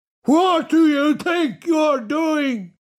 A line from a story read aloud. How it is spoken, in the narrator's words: yelled Ping